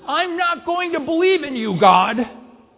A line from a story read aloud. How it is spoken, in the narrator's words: you can yell at the top of your lungs